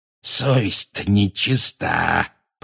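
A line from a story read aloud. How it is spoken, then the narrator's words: Hoarse wheeze. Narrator (Russian): просипел он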